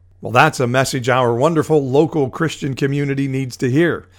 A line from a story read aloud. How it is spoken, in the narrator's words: Elsa shouted back